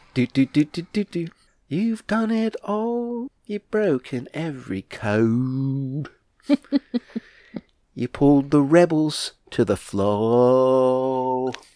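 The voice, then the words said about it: Sung imitation with Cockney accent. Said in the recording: “Good impersonation ... Pretty accurate, yeah. They're Cockney.”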